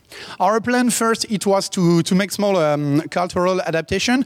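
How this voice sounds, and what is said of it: French accent. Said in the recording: “France. Uh, by your accent, I'm sure everyone could have guessed that.”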